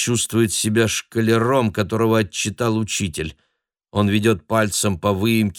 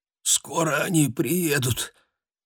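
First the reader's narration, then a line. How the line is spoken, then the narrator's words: Barely audible mumble. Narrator (Russian): чуть слышно бормочет Виктор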